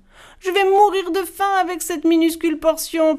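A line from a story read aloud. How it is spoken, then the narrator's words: Youngest one whining. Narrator (French): pleurnichait le plus jeune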